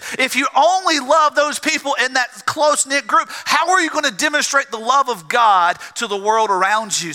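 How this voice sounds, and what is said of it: Southern US drawl. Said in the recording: “my South Georgia drawl”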